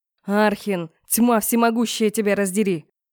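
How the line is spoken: Angry bark. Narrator (Russian): Зло рявкнул ректор

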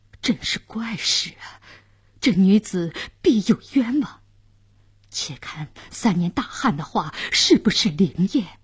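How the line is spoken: Astonished muttering. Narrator (Chinese): 监斩官、刽子手也惊讶地嘟囔着

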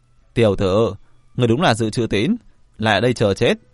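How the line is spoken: Loud laughter. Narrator (Vietnamese): Tần Hồ cười lớn

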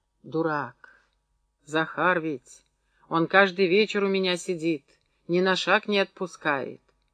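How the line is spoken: Whispered. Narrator (Russian): шепнула

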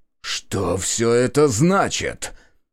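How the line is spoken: Hissed with strained dignity. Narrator (Russian): прошипел он, пытаясь сохранить достоинство даже в таком положении

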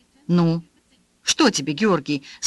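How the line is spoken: Stern old man. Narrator (Russian): спросил дед строго

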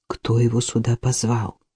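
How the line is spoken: Quiet, upset question. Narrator (Russian): тихонько спросила огорченная его появлением Касси

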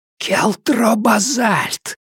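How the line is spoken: Whispered repetition, widow. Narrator (Russian): повторила вдова, на этот раз шепотом

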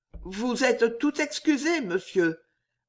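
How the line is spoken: Stammering. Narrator (French): balbutia Jeanne

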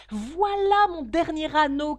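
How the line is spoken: Shouted. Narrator (French): cria-t-il

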